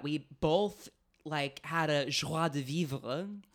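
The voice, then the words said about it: Put-on French accent. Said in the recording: “How's my French accent?”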